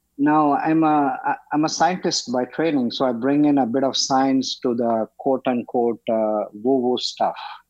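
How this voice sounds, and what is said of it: Speaks with a noticeable accent. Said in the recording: “everyone will be used to my accent ... you have an accent”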